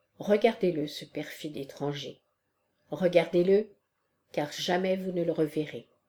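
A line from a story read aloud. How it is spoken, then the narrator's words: Low furious voice. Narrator (French): il lui avait dit, à voix basse, mais avec fureur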